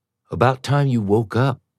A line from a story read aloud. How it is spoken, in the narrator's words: she said